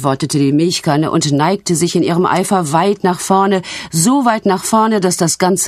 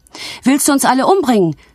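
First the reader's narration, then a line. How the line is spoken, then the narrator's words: Excited shout. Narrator (German): schrie eine Untertasse aufgeregt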